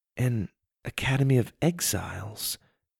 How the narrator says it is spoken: Lydia said quietly

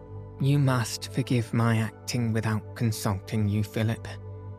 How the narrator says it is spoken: she said

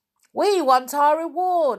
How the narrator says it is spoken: suddenly shouted someone

